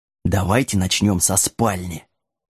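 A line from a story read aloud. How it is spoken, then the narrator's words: Quiet suggestion, dog. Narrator (Russian): серый пес тихо предложил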